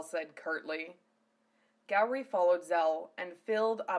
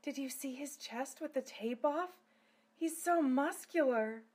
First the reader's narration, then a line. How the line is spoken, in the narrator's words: Silphiel … whispered